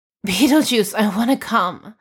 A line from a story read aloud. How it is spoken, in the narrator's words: pleads